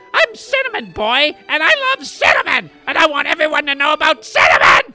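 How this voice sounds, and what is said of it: Loud yelling voice. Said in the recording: “Stop yelling! ... You're always yelling about cinnamon. ... Do you have to yell?”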